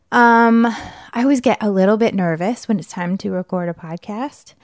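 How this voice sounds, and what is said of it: Out of breath, breathy speech. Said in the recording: “I'm out of breath weirdly.”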